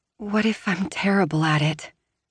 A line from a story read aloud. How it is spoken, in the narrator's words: She asks breathlessly